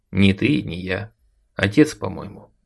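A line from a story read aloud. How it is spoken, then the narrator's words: Dry statement. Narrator (Russian): сухо заявил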